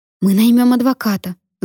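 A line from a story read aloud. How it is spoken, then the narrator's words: Heated exclamation. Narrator (Russian): запальчиво воскликнула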